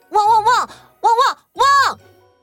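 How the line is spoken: Dog barking suddenly. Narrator (Chinese): 狗狗旺财突然对着灌木丛里的一个地方汪汪叫

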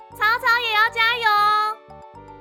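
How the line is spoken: Smiling loud call. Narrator (Chinese): 元宇笑了笑 又大声的叫了一句

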